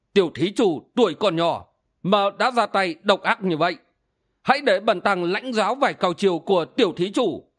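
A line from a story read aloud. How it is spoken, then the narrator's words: Angry low voice. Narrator (Vietnamese): Siêu Không Thượng Nhân lại càng tức giận, trầm giọng nói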